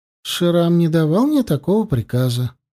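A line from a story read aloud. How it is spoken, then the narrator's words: Calm. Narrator (Russian): спокойно ответила Янди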